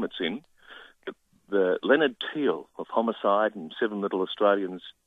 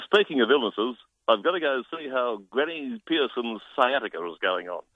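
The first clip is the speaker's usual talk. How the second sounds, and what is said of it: Impression of Leonard Teal. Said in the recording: “great impersonation of Leonard Teal”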